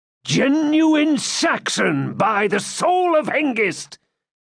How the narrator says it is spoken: shouted Cedric

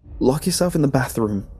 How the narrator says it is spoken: yelled

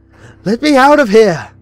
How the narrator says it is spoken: screamed

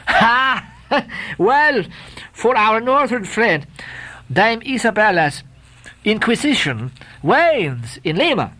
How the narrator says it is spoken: laughed Don Sebastian

